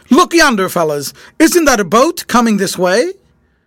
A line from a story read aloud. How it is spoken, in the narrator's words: George broke in upon the silence by saying excitedly